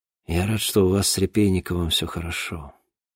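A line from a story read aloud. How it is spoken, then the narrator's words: Mumbled. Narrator (Russian): пробормотал Денис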